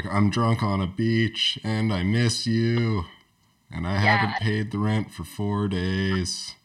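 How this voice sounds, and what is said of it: Imitates a band's singing style. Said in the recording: “That was my front bottoms impression.”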